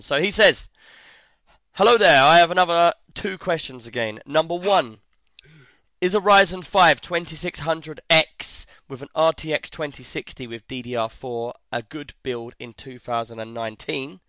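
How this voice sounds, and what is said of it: Hoarse, worn-out voice. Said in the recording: “where I've been shouting at, my voice is gone”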